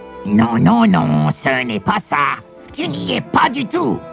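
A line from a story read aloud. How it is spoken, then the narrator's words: Old man snickering. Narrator (French): ricana le bonhomme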